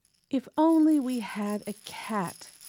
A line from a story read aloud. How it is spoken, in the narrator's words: sighed the very old woman